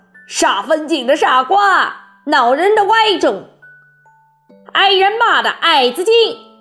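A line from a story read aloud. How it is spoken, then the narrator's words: Group shouting. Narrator (Chinese): 他们叫道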